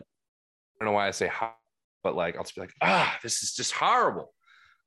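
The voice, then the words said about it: Boston-sounding pronunciation of horrible. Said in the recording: “It sounds so like you're from Boston then.”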